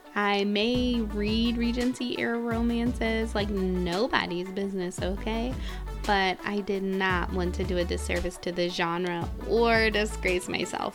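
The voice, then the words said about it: Nasal American accent. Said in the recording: “my beautiful nasal accent, I am American”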